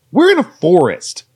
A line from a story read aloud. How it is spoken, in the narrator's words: Davy barked